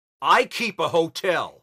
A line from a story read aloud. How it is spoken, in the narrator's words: he shouted